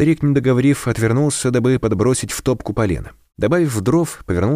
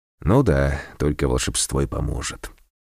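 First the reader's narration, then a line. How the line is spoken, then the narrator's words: Sighed. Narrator (Russian): вздохнул посетитель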